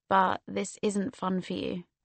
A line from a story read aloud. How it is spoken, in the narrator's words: he said with a weak laugh